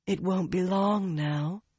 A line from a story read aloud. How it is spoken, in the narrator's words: Lyanna told him in a sultry voice